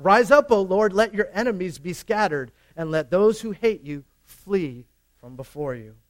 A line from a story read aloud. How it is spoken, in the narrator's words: Moses would shout